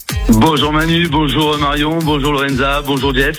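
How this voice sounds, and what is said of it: Slight regional sing-song accent. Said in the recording (French): “avec ce petit accent ... chanteur c'est ça ... Ça chante.”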